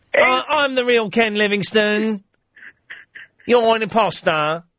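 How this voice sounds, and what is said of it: Imitates another person's voice. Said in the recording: “That's how ... would talk ... my impression is better than your actual voice”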